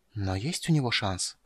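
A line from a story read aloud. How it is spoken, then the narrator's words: Hoarse whisper. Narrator (Russian): хриплым шепотом повторила она свой вопрос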